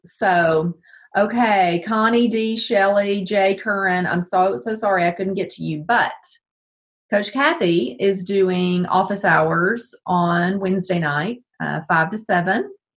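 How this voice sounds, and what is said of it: Strained voice, losing her voice. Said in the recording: “I'm losing my voice.”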